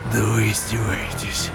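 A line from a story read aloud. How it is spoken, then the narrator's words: Breathless whisper. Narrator (Russian): Тяжело дыша, прошептал сержант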